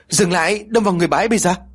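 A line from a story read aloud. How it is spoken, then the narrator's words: Sudden shout. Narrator (Vietnamese): Lý liền hét lên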